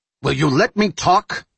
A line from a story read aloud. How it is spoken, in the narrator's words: Jack snarled, losing it again